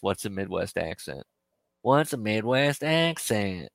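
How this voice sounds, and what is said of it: Put-on hillbilly-tinged Midwest accent. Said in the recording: “Nah, that's too hillbilly. You got a little hillbilly in there.”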